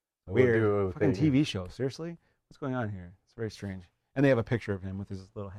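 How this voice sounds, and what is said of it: Usual voice. Nothing is said of it.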